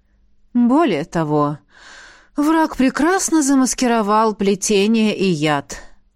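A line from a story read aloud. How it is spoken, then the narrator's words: Sighing. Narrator (Russian): вздохнул Ингвард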